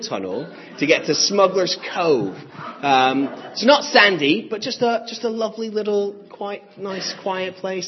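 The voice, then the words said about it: American twang accent. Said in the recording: “you have a funny twang to your voice ... I'm originally from the States”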